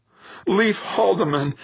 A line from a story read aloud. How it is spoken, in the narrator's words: Angela choked out, wiping at her eyes